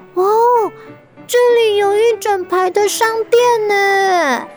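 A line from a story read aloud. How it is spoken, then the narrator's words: Excited shout. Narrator (Chinese): 小青蛙兴奋地大喊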